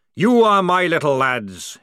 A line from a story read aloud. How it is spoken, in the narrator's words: he roared